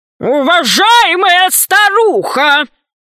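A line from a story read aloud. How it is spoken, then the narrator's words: Thunderous voice. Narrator (Russian): громовым голосом произнес Громозека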